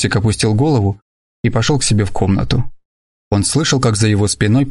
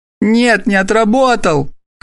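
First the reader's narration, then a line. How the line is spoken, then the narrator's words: Shout. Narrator (Russian): крикнул Тосик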